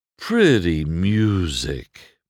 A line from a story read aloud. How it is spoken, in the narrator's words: Mac said sleepily